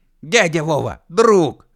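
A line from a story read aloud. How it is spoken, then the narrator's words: Frantic shriek from stage. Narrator (Russian): истошно закричал со сцены УФ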